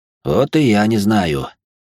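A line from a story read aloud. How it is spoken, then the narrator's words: Heavy sigh. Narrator (Russian): тяжело вздохнул я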